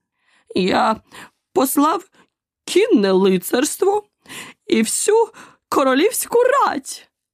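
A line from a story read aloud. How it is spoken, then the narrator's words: King's joyful shout. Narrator (Ukrainian): радісно крикнув король, угледівши Алісу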